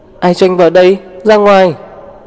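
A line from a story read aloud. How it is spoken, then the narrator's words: Shrill voice. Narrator (Vietnamese): giọng nói lập tức the thé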